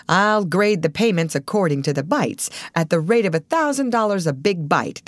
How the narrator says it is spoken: declared the manager, also laughing

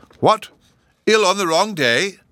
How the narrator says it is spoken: exclaimed the professor

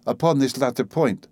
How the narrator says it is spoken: said Madame Lalande, laughingly

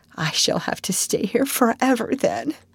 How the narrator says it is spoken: said Anne mournfully

